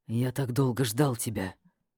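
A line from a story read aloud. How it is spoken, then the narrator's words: Muffled whisper into neck. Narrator (Russian): прошептал он куда-то мне в шею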